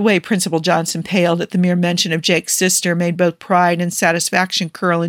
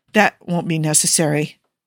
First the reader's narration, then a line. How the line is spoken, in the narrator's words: the principal mumbled weakly